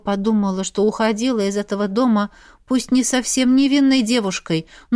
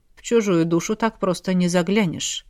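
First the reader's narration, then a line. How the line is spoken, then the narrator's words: Witch muttering. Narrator (Russian): пробормотала ведьма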